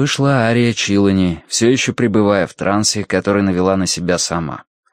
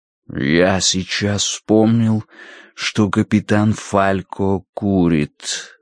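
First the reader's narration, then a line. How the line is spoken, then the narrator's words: Plain. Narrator (Russian): сказал он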